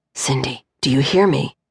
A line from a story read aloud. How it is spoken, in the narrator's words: Mateus whispered a bit louder now